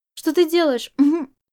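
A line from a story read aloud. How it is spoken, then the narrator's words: Cut off mid-sentence. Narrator (Russian): Он успел произнести только половину предложения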